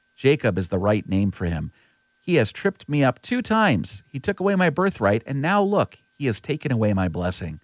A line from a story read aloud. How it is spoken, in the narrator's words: Esau exclaimed